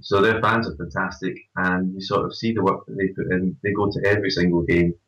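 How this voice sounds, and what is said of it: Scottish accent. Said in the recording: “connection with Scottish. ... People, which, as you can tell from my accent”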